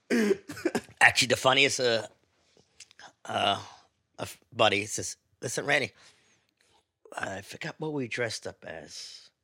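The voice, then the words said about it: Northern English accent. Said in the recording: “love the northern accent, too, because you say Oompa Loompas”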